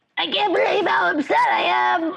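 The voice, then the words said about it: Silly put-on voice. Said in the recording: “talk in a silly voice”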